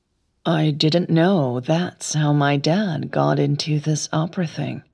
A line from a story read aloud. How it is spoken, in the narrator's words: she murmured